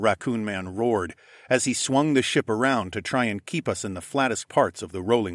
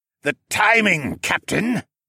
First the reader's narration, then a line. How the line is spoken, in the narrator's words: Siskern bellowed as he braced against the starboard side of the ship